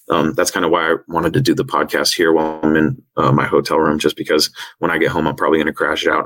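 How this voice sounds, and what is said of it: Hoarse, worn-out voice. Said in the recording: “I'm losing my voice.”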